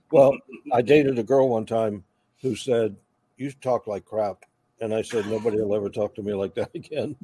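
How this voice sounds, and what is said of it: Slight Southern US drawl. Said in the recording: “So that's where the Southern draw is. You still got it a little. You still got that Southern draw a little bit.”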